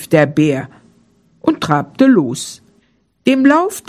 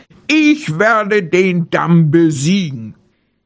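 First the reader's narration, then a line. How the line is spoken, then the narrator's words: Bear roaring. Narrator (German): brüllte der Bär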